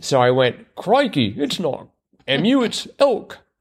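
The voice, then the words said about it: Weak put-on Australian accent. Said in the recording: “that was my Australian accent ... that was my attempt ... the fact that I have to explain that it was an Australian accent is pretty bad”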